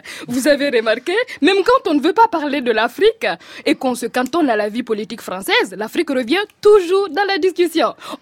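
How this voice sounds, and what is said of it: Put-on African French accent. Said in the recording (French): “Oh pardon, mon accent africain revient.”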